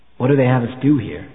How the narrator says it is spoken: The old man sighed

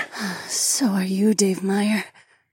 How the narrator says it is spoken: the gorgeous woman purred

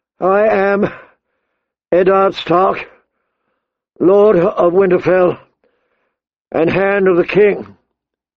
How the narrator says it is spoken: he said more loudly, his voice carrying across the plaza

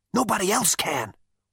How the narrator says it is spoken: whispered Zaphod

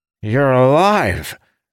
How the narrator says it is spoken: the necromancer exclaimed

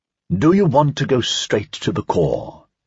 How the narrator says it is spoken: asked Jules Caillebotte

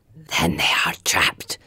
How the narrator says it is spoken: one of the trackers whispers fiercely

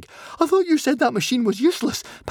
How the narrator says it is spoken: panted Fishlegs

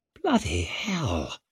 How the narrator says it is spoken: breathed Orso

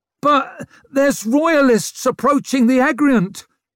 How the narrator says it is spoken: he squealed, cringing

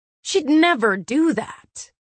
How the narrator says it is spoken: Cassian said hotly

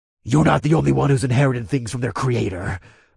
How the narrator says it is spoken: I growled

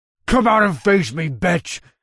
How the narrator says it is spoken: the monster snarled

